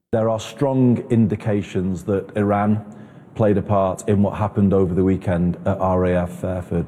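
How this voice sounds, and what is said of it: British accent. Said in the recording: “Get ready for the British accent. ... they have a way, don't they? But it's a little bit prissy. It's a little bit sissy.”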